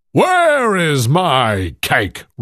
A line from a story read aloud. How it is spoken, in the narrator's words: roared the giant